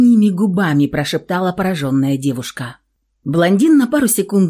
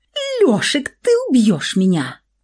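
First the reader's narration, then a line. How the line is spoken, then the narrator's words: Strangled squeak. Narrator (Russian): сдавленно пискнула Александра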